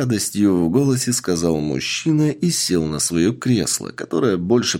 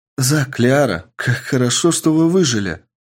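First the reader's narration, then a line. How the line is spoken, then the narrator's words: Joyful young woman's voice. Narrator (Russian): радостно сказала 80-летняя молодая девушка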